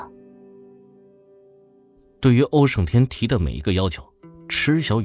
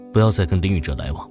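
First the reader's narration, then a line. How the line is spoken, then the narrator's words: Faint, detached voice. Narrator (Chinese): 空气中飘起一个淡淡的声音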